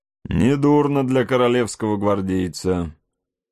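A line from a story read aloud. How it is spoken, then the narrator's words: Warm, silent laughter. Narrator (Russian): сказал соколиный глаз, смеясь своим беззвучным, задушевным смехом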